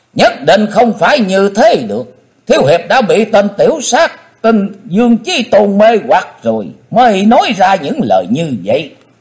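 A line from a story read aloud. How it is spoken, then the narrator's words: Loud scream. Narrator (Vietnamese): Hận Thế Tần Mũi Hy đã thét lớn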